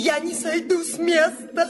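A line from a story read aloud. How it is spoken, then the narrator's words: Shrill shout. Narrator (Russian): прокричала визгливо Пряхина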